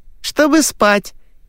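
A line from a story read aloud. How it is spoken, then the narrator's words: Giggling girl. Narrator (Russian): хихикнула девочка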